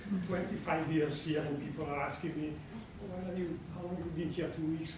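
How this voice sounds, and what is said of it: Italian accent in English. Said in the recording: “I was born and raised in Italy, so my accent is still”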